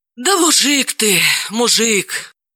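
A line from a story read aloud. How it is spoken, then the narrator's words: Heavy sigh. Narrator (Russian): тяжело вздохнула Далила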